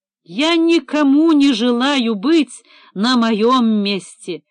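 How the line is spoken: Shouting, near tears. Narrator (Russian): чуть не плача закричал Левицкий

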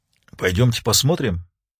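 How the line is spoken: Almost whispered suggestion. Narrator (Russian): предложил Старлей почти шепотом

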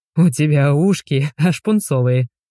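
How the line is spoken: Chuckling. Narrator (Russian): хохотнул Игорь

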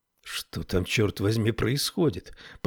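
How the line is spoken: Muttered. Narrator (Russian): пробормотала Тесла

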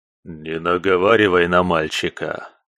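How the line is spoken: Hoarse voice, near ear. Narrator (Russian): Раздался над ухом куратора смутно знакомый хриплый голос

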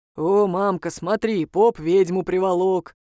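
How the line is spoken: Deep-voiced girl. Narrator (Russian): пробасила девочка

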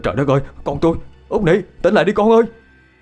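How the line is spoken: Frantic trembling cry. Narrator (Vietnamese): Hét lên một tiếng, anh Tám liền nhào tới bế thốc con lên, giọng run rẩy

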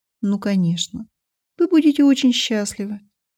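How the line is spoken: Conciliatory agreement. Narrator (Russian): согласилась примирительным тоном

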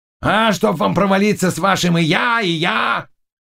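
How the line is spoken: Shouted. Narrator (Russian): крикнул Заглоба

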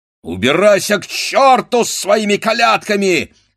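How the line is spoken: Angry shout. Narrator (Russian): сердито закричал Вакула

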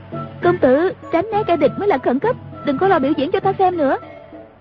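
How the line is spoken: Urgent cry. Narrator (Vietnamese): Ngữ Yên kêu lên

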